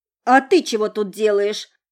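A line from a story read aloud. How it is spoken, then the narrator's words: Angry question, then yell. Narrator (Russian): Зло спросила девица и вдруг заорала на него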